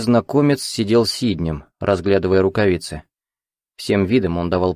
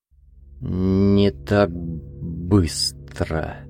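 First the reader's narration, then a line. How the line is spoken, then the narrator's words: Slow speech. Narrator (Russian): медленно проговорил незнакомец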